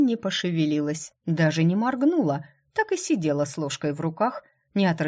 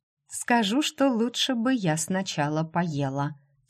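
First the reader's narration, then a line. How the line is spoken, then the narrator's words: Quiet reply. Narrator (Russian): тихо ответила она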